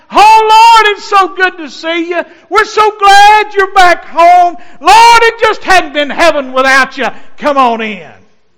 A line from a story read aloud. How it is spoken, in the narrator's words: angel choirs singing and shouting